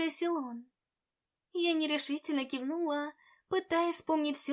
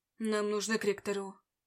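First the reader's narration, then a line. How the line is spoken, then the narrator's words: Cold reply. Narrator (Russian): холодно ответил он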